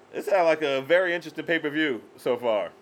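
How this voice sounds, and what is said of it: Sarcastic tone. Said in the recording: “I'm just being sarcastic.”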